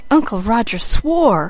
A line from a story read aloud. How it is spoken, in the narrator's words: said Felicity in a shocked tone